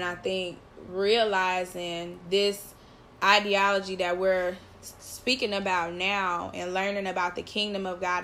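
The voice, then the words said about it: Teary, emotional voice. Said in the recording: “getting teary-eyed ... I'm about to cry”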